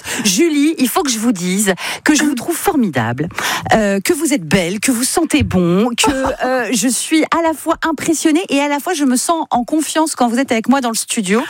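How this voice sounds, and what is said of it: Excited, unusually high-pitched voice. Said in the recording (French): “J'ai ma voix qui part dans les aigus, tellement je suis contente.”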